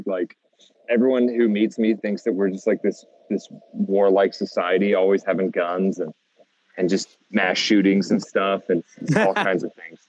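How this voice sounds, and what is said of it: American accent. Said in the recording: “I've been trying to keep my American accent ... leaning into your American accent hardcore ... suddenly dude, American, from Boston”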